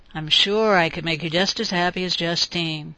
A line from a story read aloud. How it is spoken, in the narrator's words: murmured